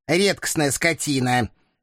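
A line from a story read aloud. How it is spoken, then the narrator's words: Menacing voice from behind. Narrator (Russian): Грозно раздалось за моей спиной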